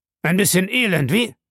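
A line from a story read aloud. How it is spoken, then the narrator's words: Sharp question. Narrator (German): fragte Abel scharf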